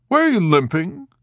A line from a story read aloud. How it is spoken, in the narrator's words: He asked sharply